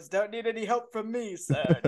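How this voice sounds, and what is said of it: Imitates another person's voice. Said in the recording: “that was a good impression. ... Didn't sound like Kermit at all.”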